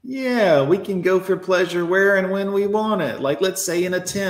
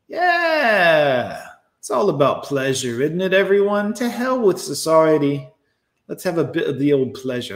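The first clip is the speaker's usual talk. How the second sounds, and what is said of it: Put-on British accent drifting Australian. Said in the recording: “my British accent keeps going Australian”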